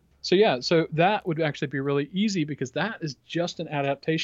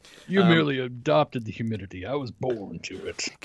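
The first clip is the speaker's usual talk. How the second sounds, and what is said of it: Bane character voice impression. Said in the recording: “my Bane impression”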